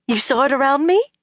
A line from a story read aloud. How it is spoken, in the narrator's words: she said excitedly